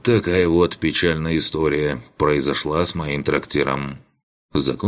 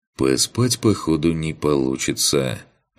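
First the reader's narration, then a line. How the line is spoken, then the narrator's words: Sigh. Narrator (Russian): вздохнул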